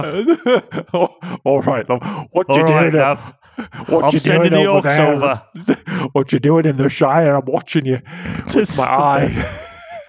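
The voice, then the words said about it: Put-on Australian accent as Sauron. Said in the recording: “He's Australian. ... Sauron was just a guy called Steve. Well, it's still the eye, but with an Australian accent.”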